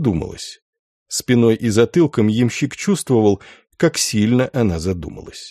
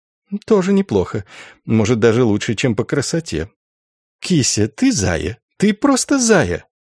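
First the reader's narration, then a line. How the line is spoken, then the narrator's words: Giggling. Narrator (Russian): Ямщик в зеркале хихикнул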